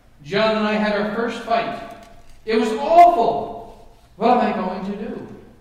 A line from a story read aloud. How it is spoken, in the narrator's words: cried